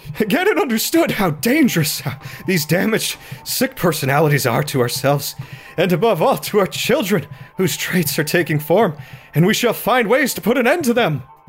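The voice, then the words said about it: Scared, fearful reading voice. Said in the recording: “I'm gonna read it in a scared voice”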